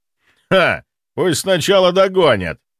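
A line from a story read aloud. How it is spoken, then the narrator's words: Merry laughter. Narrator (Russian): Весело расхохотался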